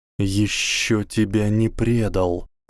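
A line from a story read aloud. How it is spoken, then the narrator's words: Hissed. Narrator (Russian): прошипел Гарри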